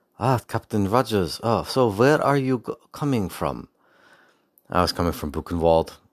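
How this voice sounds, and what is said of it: Poor put-on German accent. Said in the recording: “I don't do a good German accent, and I haven't practiced it... maybe if I pretend I'm the Red Skull... That was an awful impression.”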